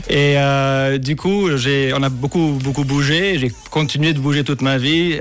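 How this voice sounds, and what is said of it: Slightly exotic foreign accent. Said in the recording (French): “cet accent un petit peu exotique”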